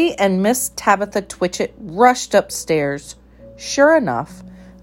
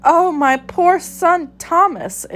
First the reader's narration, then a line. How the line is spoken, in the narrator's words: exclaimed Tabitha, wringing her paws